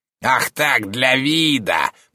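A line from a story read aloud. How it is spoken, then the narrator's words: Creaky voice. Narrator (Russian): проскрипел Шпельман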